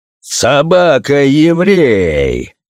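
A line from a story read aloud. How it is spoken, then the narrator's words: Emperor's rude shout. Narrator (Russian): грубо закричал на него император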